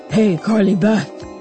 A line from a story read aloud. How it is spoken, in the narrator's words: He called in a deep, raspy voice